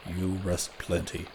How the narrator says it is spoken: the Indian murmured

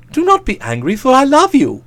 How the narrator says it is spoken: he pleaded

